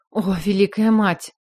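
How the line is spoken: Breathless exclamation. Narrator (Russian): выдохнула я

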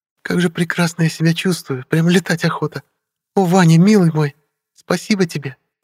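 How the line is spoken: Very soft tender voice. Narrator (Russian): Очень мягким и ласковым голосом произнесла девушка

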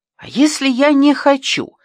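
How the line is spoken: Exclamation. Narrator (Russian): воскликнул Ящиков

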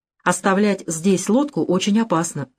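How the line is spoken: Plain. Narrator (Russian): сказал Мали

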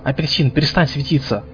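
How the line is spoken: Whisper. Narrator (Russian): шепнула

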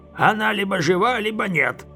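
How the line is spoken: Rude grumble. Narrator (Russian): грубо буркнул маг

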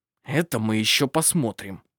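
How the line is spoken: Through gritted teeth. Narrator (Russian): процедил Милан сквозь зубы

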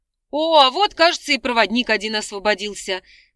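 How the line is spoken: Snorting. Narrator (Russian): хмыкнул библиотекарь

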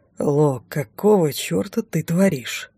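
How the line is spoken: Very ingratiating, cautious question. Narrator (Russian): Очень вкрадчиво и осторожно спросил он

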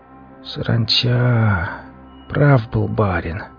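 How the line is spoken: Hoarse wheeze. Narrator (Russian): прохрипел я

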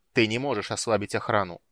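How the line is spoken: Angry. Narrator (Russian): сердито сказал маг

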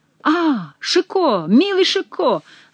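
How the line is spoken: Exclamation. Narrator (Russian): воскликнул король

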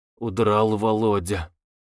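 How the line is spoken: Muttered. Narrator (Russian): Макаров, пробормотал

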